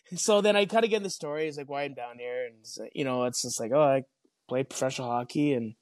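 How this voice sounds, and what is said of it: Canadian accent. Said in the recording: “they catch my Canadian accent quite quickly”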